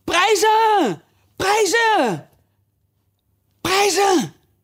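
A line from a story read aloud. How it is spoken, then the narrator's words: Overlapping group shouting. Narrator (Dutch): het hele gezelschap riep door elkaar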